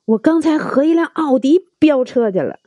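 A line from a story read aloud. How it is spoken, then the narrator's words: Excited loud clamoring. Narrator (Chinese): 阿 P 兴冲冲的，他就嚷嚷起来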